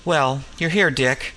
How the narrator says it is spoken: said

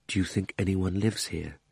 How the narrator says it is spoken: said Digory at last, still in a whisper

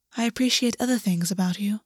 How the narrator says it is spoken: Augus said softly

